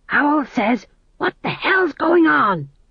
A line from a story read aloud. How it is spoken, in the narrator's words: He hissed